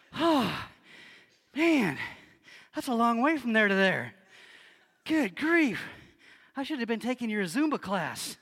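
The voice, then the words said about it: Out of breath, panting. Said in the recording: “how are you guys not out of breath? ... I am wiped out.”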